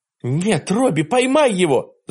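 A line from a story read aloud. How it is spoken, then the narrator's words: Shouting. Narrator (Russian): закричала Диана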